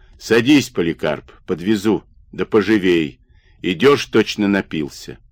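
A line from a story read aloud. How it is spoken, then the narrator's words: Authoritative command. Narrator (Russian): староста властным голосом приказал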